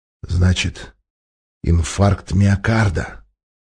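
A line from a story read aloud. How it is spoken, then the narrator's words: Menacing growl, giant. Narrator (Russian): угрожающе прорычал гигант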